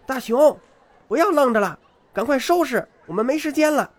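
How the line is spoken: Mother calling out. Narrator (Chinese): 妈妈玉子的喊声

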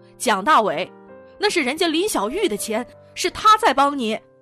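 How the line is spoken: Angry roar. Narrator (Chinese): 牛军吼道

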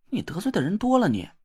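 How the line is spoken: Scornful muttering. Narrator (Chinese): 田慧文不屑的切了一声 小声嘟囔了一句

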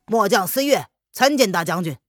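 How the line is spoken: Loud soldier. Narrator (Chinese): 这奇葩士兵 大声的道

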